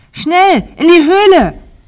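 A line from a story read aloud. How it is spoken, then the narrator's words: Scream. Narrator (German): schrie Mira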